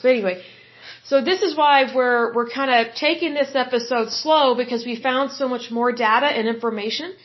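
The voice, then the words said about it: Slightly hoarse, tired voice. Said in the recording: “I'm a little tired ... my voice is a little hoarse”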